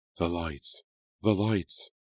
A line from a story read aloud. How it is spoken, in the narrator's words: gasped